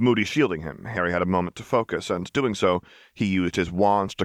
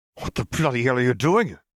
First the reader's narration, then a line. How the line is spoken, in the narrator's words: snapped